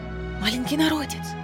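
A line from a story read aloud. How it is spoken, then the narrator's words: Crowd whispering. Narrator (Russian): зашептались собравшиеся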